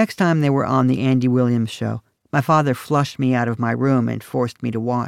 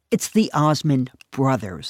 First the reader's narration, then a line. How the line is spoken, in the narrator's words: I said